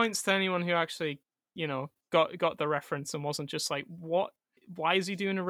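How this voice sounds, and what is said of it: Usual voice. Nothing is said of it.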